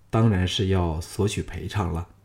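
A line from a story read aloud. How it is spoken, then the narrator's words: Soft, gentle. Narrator (Chinese): 项少龙柔声说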